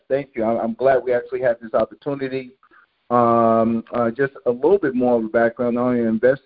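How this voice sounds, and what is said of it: New York accent. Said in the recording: “people can hear from your accent that you're out of New York”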